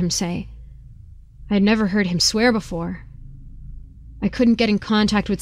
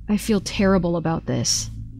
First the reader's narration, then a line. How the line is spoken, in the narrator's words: said